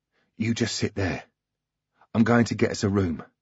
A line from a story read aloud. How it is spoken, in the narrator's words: whispered